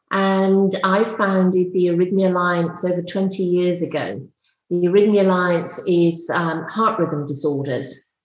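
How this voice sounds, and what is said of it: British accent. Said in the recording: “You can tell by my accent, I'm British”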